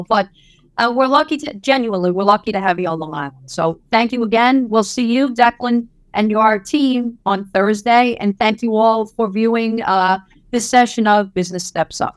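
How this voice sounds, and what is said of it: Heavy Brooklyn accent. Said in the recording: “I have a very heavy Brooklyn accent”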